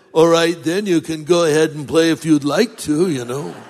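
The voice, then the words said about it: Imitates another person's voice. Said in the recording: “That was an affectionate imitation”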